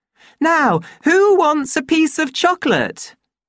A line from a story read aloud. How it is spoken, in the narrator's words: She asked in a loud, cheerful voice